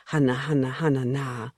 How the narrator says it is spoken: Eno would murmur

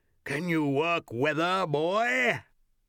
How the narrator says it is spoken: asked him in a mighty voice

